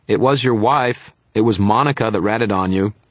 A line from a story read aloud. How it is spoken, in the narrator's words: shouted